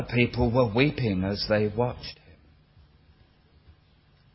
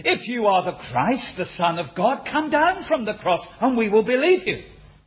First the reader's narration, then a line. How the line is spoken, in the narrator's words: some people said, jeering at him